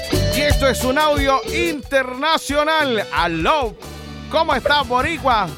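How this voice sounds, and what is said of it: Puerto Rican Spanish accent. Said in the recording (Spanish): “me encanta tu acento boricua”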